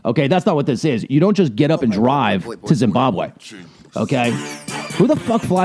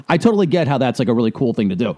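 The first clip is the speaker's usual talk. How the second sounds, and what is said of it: Sarcastic delivery. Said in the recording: “I'm being sarcastic, by the way.”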